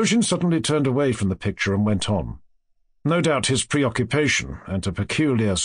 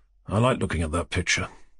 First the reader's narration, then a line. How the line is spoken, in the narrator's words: Rogojin muttered after a pause, seeming to have forgotten his question